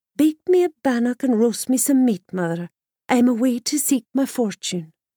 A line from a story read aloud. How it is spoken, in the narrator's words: she sighed and said